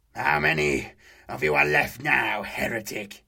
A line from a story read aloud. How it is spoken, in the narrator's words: the Astartes spat